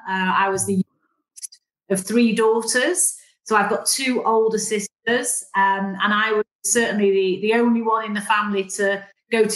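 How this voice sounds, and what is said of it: Northern English Mancunian accent. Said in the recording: “you can probably tell from my accent that I'm a northern girl, so I'm a Mancunian by background”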